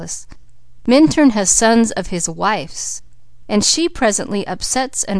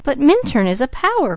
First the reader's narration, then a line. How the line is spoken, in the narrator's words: cried the girl